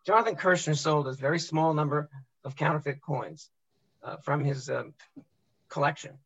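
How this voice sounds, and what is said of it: Hoarse, strained voice. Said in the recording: “I'm battling a little bit of laryngitis”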